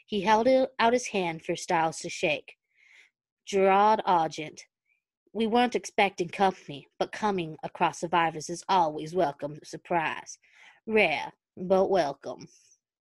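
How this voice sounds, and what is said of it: Emphasized Southern accent. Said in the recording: “I'm always trying to hide my southern accent. Now I'm emphasizing it.”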